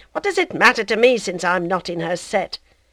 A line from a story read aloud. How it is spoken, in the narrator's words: Binet once roughly answered him